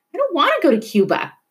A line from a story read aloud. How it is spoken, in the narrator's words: Ruth whined